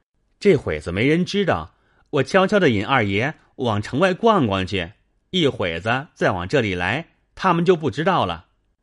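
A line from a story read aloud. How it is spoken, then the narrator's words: Giggling. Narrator (Chinese): 明烟嘻嘻笑道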